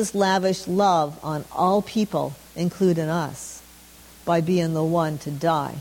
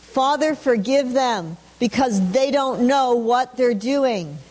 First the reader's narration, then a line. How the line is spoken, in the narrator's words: from the cross, when he cried out